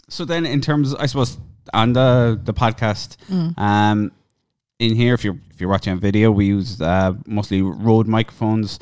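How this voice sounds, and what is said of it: Cork Irish accent. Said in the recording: “my Cork accent”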